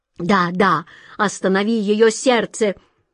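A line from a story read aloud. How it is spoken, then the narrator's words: King's frantic exclamation. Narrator (Russian): Вне себя воскликнул король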